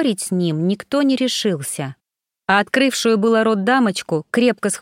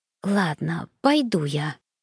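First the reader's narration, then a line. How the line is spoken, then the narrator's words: Whisper. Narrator (Russian): прошептала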